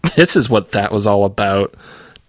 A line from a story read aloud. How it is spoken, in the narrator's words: Dev laughed